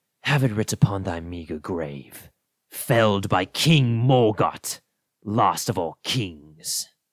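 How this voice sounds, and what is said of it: Menacing villain character voice. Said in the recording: “Sounds menacing... my best Morgott impression”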